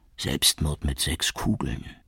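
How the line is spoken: Cynical whisper. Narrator (German): Shukri, der große Zyniker, flüsterte dann

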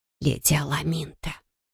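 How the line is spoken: Whispered. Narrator (Russian): прошептала Эстрас Марисель

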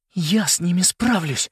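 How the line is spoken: Whisper. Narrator (Russian): шепнул Нолан Селесте

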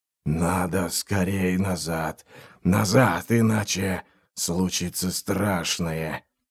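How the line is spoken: Low moan. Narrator (Russian): низким голосом простонал он

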